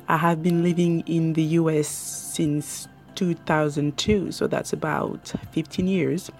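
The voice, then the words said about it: French accent. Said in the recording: “my native language is French, thus the accent.”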